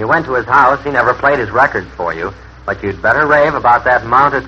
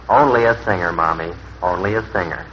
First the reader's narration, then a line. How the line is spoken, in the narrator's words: he'd grin in embarrassment and murmur to his wife